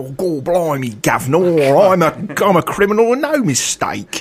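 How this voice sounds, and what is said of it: Exaggerated bad English accent. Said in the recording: “that terrible English accent”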